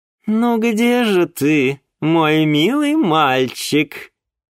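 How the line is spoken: Sing-song, then laughing. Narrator (Russian): Нараспев произнесла Ольга Эдуардовна и рассмеялась

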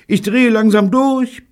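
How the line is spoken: Bellowed. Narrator (German): brüllte Evelyn

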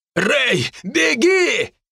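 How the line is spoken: Hysterical distant shout. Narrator (Russian): истерично выкрикнул Дарт с края площади

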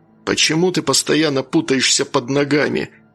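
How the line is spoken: Annoyed grumble. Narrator (Russian): с досадой ворчал он

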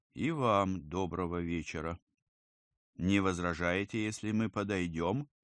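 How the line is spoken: Calm reply. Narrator (Russian): один спокойно ответил

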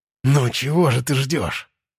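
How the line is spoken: Hiss through closed lips. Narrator (Russian): Сквозь сомкнутые губы прошипел я

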